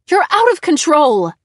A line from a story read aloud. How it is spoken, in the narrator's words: screamed